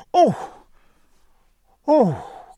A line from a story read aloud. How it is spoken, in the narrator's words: cried Cecilia